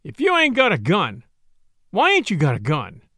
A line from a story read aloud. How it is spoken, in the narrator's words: he sneered